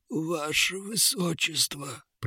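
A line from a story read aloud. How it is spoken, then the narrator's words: Book groaning. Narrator (Russian): простонал фолиант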